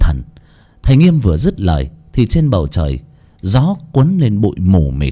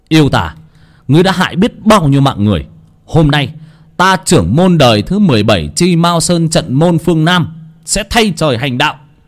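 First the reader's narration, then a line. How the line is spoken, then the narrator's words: Shout. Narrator (Vietnamese): thầy lao ra ngoài mà hét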